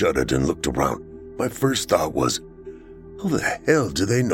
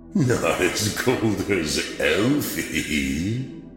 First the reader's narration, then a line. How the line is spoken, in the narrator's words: the strange metallic voice chuckled